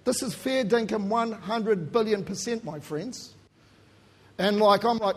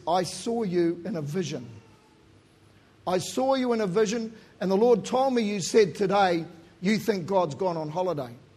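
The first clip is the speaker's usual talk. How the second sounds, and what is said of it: Strong Australian accent. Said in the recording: “this Aussie fella with a strong Aussie accent”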